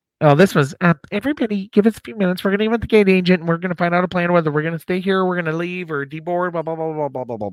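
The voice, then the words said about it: Imitated airline pilot voice. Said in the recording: “the pilot voice”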